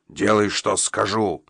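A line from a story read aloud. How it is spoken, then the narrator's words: Growled. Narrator (Russian): прорычал он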